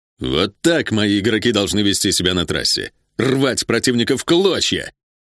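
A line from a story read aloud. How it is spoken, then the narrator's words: Joyful exclamation. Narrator (Russian): радостно воскликнул Вектор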